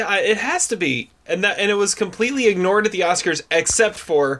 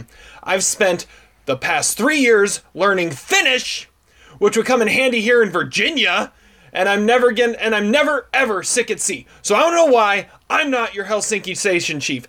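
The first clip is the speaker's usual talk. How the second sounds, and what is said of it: Imitates a movie character's intonation. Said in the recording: “you get the intonation exactly right. Like the way he says, "Finish!" Yeah, that's a great imitation”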